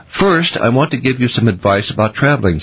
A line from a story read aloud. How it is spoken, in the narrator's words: said Mr